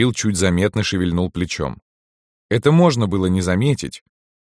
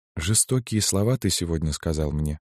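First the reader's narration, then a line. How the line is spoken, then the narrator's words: Quiet speech. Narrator (Russian): Зоя Алексеевна негромко проговорила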